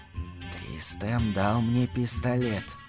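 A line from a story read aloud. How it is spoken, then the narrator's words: Whisper. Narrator (Russian): Матушка прошептала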